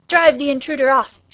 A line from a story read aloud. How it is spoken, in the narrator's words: shouted others